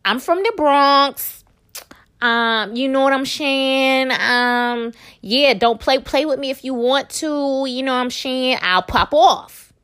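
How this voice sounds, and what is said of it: Poor imitation of another person's voice. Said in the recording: “That was a terrible impression of Cardi”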